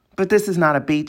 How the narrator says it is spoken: he said

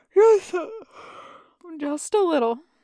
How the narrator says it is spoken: he says, yawning

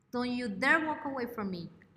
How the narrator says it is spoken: Emma shouted, angrily

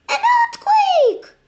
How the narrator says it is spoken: shrieked Eliza

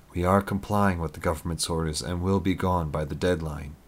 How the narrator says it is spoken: Eric replied in a calm, reassuring tone

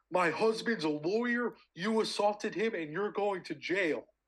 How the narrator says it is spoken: she starts screaming

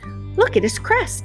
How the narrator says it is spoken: exclaimed one young turkey in a piping voice

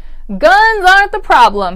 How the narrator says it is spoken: he said at a full shout

